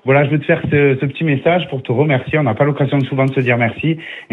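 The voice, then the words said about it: Speaks with a distinctive accent. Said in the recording (French): “je pense que tu me reconnais à mon accent.”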